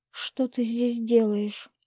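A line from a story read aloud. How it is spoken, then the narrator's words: Quiet question. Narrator (Russian): тихо спросила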